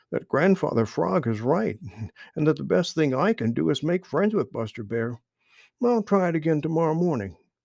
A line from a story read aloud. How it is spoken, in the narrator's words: said Little Joe, as he wiped tears of laughter from his eyes